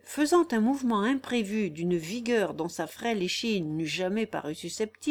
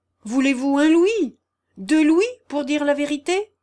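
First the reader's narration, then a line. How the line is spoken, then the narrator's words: Crying out. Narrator (French): s'écria le calme et prudent Monsieur Harley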